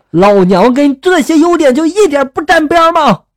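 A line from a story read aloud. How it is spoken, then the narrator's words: Angry roar. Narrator (Chinese): 怒吼着就说了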